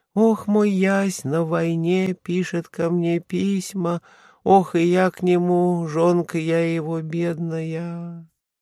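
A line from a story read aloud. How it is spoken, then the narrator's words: Thin drawn-out singing, woman. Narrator (Russian): баба вытягивала тонким голосом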